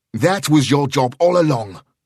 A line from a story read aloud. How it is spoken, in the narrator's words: Sheridan snapped